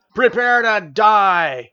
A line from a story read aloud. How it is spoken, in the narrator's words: The banker shouted